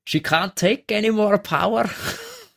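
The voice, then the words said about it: Put-on Scottish accent. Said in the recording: “That is the best Scottish accent I've heard today. ... That was good. Yeah. Mr. Scotty.”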